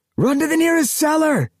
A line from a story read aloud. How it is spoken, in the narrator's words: he shouted